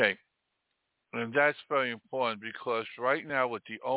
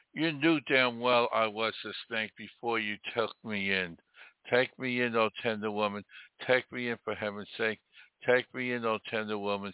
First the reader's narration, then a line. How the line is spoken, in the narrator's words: sighed the snake